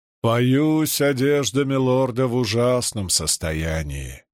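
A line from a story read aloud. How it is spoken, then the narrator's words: Funereal tone. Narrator (Russian): похоронным тоном заявил Нерим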